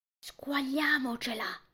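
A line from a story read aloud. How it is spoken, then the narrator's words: Whispered. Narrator (Italian): bisbiglia Christoph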